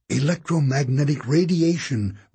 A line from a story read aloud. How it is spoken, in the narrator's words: breathed Sticky